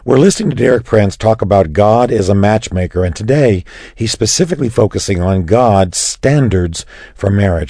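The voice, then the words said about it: Raspy, strained voice. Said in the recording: “Excuse my raspy voice, a little bit of voice strain here”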